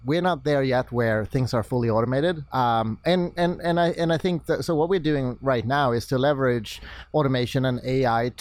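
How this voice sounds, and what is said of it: Swedish accent in English. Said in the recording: “I could tell by your accent ... my Swedish Boston accent”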